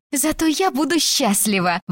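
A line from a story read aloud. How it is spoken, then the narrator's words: Exclaimed. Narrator (Russian): воскликнула Беннон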